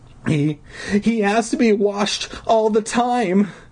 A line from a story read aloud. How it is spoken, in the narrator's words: Deirdre exclaimed with a sob